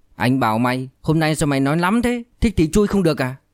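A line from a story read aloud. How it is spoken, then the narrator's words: Angry speech. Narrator (Vietnamese): Diệp Dũng tức giận nói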